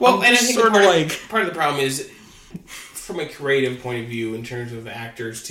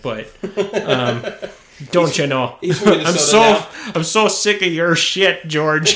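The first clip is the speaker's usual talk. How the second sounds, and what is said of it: Put-on Wisconsin accent. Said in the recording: “I don't know why he has a Wisconsin accent”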